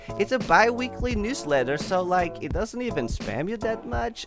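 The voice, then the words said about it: Unspecified put-on accent. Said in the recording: “I don't know what accent this is anymore”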